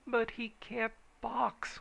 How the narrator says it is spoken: wailed Richards

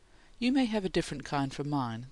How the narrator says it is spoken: the mother said, a little sadly

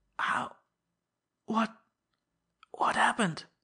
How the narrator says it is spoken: he whispered hoarsely

